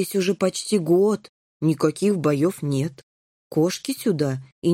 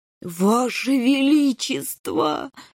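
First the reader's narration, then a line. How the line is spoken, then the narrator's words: Groaning. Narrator (Russian): застонал генерал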